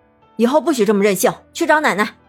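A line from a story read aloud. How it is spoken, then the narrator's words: Stern shout. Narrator (Chinese): 李春丽板起面孔叫道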